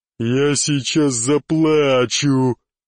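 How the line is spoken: Joyful growl. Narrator (Russian): прорычал черный от радости

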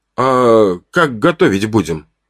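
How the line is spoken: Hesitant question. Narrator (Russian): спросил его неуверенно

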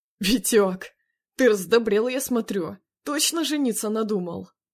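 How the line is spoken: Chuckling. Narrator (Russian): Хохотнув, Макаров

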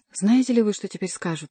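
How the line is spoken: Exclaiming. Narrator (Russian): воскликнул Сен-Люк

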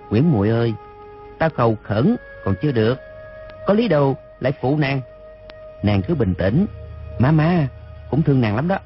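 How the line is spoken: Soft, infatuated. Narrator (Vietnamese): rơm rớm nước mắt, lòng chàng càng thêm mê mẩn, khẽ bảo nàng

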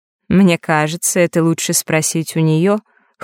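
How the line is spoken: Hmphing. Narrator (Russian): хмыкнула повелительница лютов

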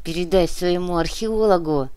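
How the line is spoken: Hissed through teeth. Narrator (Russian): сквозь зубы процедила Пенкина

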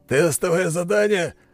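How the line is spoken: Laughing loudly. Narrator (Russian): Магнус расхохотался

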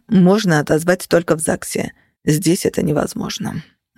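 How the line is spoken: Gloomy, heavy sigh. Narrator (Russian): мрачно заметил Феникс, тяжело вздыхая

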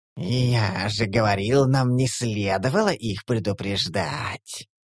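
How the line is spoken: Offended drawl, goblin. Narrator (Russian): протянул гоблин обиженно

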